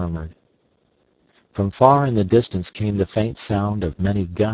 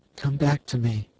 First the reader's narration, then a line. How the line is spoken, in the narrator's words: whispered